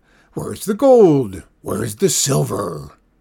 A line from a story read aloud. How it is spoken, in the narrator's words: he roared